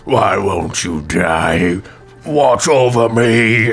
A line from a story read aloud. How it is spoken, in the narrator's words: the wildly swinging goes